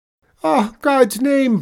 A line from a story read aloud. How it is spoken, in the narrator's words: bawled the tradesman